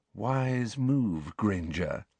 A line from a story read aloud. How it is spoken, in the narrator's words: breathed Malfoy